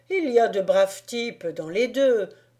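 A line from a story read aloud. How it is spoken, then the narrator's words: Cordial man. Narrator (French): dit-il d'un ton cordial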